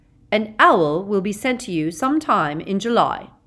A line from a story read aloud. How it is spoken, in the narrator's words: said Professor McGonagall